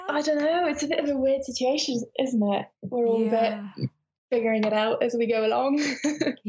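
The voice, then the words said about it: British accent. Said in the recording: “I love your accent. ... It's so very British.”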